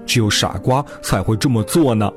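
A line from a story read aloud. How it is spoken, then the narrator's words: Mocking. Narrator (Chinese): 哥哥们在一旁取笑道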